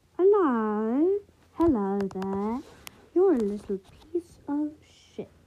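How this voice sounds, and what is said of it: Put-on British accent. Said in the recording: “I could say something with a British accent. It could sound like I'm swearing.”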